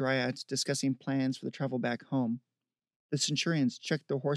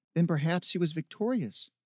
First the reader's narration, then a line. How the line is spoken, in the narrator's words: Zine said